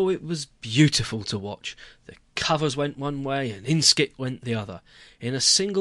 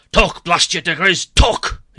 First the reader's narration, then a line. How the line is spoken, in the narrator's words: he roared